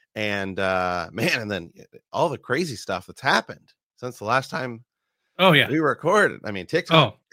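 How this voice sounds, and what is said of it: Sick, worn-sounding voice. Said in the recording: “if you can tell by my voice, I'm just getting over being sick”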